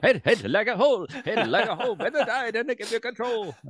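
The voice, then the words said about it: Fast sung imitation of a band. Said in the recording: “That's a pretty good Devo impression. ... It's got to be fast, right?”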